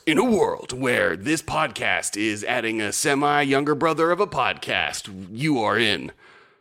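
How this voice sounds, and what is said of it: Dramatic movie trailer announcer voice. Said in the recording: “movie trailer voice”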